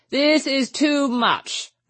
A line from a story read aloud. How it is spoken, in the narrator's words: cried the chaplain